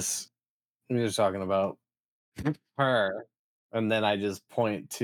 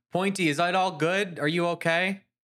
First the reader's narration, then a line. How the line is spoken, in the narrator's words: I shout out